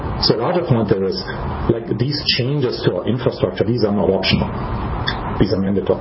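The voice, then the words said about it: German accent. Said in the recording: “as you can probably tell by my accent, I'm from ... Germany”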